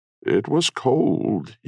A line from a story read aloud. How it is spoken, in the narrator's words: he whimpered